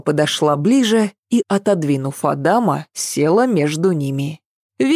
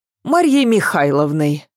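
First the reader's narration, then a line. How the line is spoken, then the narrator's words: Blurted out. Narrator (Russian): ляпнула Ася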